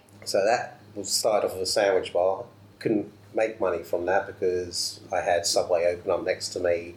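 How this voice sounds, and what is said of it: Southern English accent. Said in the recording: “So I moved up from down south. So. ... still got the accent.”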